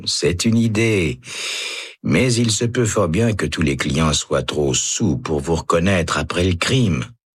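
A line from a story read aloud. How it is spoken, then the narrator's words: Man sighing. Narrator (French): soupire l'homme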